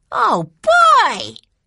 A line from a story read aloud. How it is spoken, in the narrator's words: cried Benny